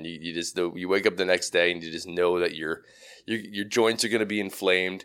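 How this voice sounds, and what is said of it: Gravelly, worn-out voice. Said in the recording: “my voice is a little gravelly too ... my voice is always shot just from yelling”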